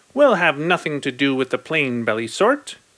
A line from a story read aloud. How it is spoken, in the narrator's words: With their snoots in the air, they would sniff and they'd snort